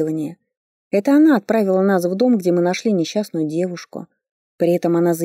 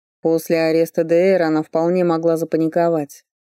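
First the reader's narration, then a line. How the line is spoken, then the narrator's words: Distracted grumble. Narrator (Russian): пробурчал Фарли, думая о чем-то другом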